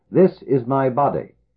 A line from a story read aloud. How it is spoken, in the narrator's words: they all cried out